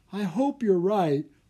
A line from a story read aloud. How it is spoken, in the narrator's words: Anna said, yawning